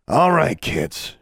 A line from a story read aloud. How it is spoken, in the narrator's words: Journey said wearily